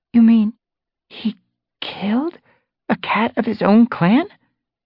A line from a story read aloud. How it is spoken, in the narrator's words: Tawnypaw faltered